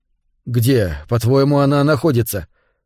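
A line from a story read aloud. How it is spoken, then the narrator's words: Through gritted teeth. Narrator (Russian): процедил Норман сквозь зубы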